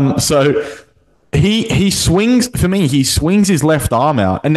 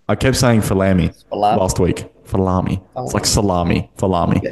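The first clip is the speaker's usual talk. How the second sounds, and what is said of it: Northeast US accent. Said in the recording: “Why are you talking with an accent? ... you actually sound like you're talking with like a northeast US accent.”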